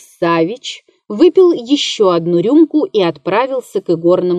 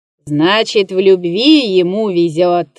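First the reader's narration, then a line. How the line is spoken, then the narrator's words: Laughing. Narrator (Russian): засмеялся Дегтярев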